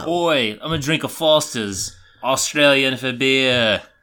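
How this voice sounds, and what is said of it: Put-on Australian accent. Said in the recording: “both y'all's Australian accents are fantastic.”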